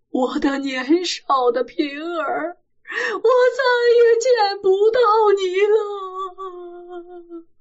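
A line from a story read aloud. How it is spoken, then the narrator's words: Distraught wailing cry. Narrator (Chinese): 西门庆也哭得失魂落魄，口口声声地叫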